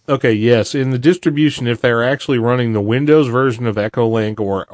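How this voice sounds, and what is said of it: Texas drawl accent. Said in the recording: “I'm the guy with the drawl from, from Texas”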